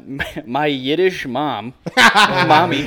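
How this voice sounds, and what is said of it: Put-on Jewish accent. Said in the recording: “in a Jewish accent? ... It's in a Jewish accent.”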